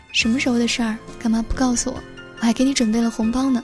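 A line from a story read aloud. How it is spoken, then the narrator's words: Smiling question. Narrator (Chinese): 他笑着问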